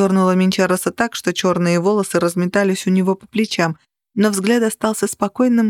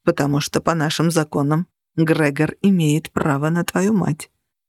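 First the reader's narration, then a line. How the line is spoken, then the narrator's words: Quiet reply. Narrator (Russian): тихо ответил Минчарос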